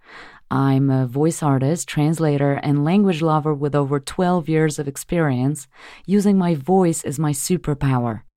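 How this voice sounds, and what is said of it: American accent. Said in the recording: “this is my American accent”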